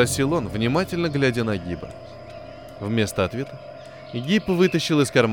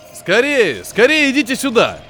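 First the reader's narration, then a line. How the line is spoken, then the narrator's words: Shouted. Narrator (Russian): закричал капитан Гибу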